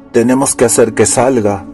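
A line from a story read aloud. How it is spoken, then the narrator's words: Growled. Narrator (Spanish): gruñó Jack Solomon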